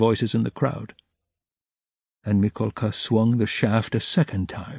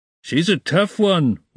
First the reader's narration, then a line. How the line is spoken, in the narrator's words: was shouted in the crowd